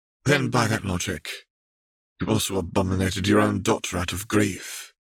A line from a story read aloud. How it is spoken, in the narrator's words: Camille said flatly